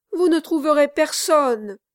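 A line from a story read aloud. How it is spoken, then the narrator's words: Exclaimed. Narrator (French): s'écria Kit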